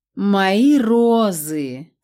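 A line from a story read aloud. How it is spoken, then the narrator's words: Mournful drawn-out lament. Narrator (Russian): скорбно протянула Скелетоновна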